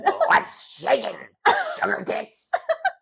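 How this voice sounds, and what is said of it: Beetlejuice impression, somewhat Joker-like. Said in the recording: “Beetlejuice impression ... It's kind of jokery too. ... It is a little jokery. ... I was going halfway between Beetlejuice and I can't do the Joker.”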